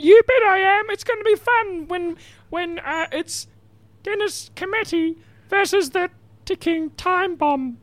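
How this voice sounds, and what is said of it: Imitates another person's voice. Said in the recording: “Impersonated Dennis Committee”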